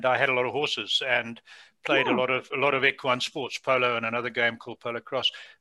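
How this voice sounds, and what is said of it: Non-Canadian foreign accent. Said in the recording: “you can hear from my accent that I haven't lived in Canada all my life. I lived most of my life in Africa”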